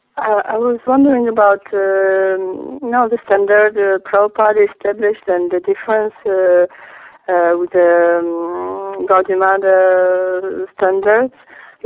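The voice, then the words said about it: Sick-sounding voice. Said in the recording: “Sorry for my voice, I'm a little sick.”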